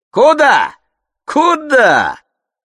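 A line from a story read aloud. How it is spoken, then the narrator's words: Shouting. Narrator (Russian): закричал Семен Матвеевич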